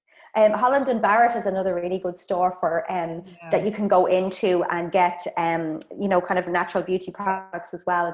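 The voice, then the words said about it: Irish accent. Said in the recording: “I'm from Ireland, if you heard from the accent”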